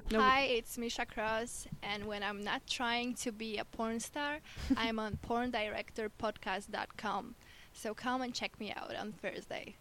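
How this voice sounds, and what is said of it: Polish-accented English. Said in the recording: “She's Polish. ... She had a great accent, too.”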